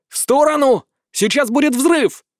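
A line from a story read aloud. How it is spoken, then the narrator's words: Shouting. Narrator (Russian): закричал я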